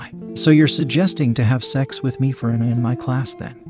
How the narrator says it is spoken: asked

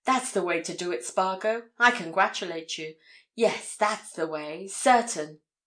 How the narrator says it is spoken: he exclaimed

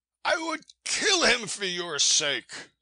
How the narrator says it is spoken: I cried

